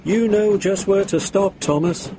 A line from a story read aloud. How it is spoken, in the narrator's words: laughed his driver